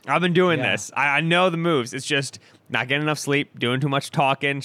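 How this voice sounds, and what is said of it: Hoarse, scratchy, congested voice. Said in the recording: “I start losing my voice, get scratchy. ... My nose is stuffed.”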